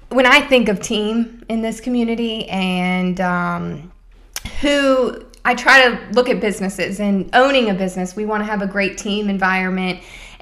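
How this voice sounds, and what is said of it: Choked-up emotional voice. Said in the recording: “I'm getting choked up here.”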